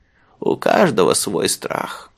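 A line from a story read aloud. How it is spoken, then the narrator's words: Old man muttering. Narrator (Russian): бормотал дедушка Мыжи Тюмин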